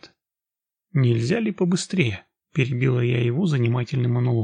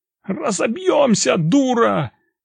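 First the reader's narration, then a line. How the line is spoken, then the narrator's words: Frightened shout from behind. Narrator (Russian): прокричал позади меня перепуганный водитель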